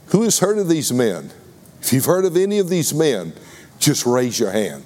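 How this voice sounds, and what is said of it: Texas accent. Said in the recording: “maybe it's my Texas accent”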